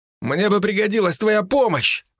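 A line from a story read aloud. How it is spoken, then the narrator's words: Sudden shout. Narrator (Russian): вдруг выкрикнул Даня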